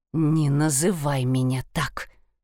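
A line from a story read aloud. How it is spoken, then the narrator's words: Growled. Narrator (Russian): прорычала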